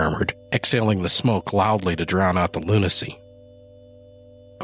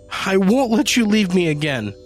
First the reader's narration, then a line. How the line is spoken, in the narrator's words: she sobbed